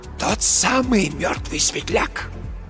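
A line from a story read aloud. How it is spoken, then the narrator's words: Very quiet wheeze. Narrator (Russian): просипел Марк Йоган совсем тихо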